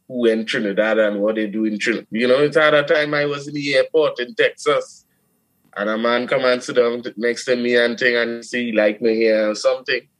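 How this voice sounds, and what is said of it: Trinidadian accent. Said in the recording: “he hear my accent and he say, you from Trinidad”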